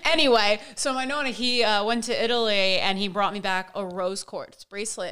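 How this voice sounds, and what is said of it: Jersey Italian-American accent. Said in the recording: “I got the Jersey Italian roots in me. And my voice is probably going to come out in certain words. You're probably going to hear the accent.”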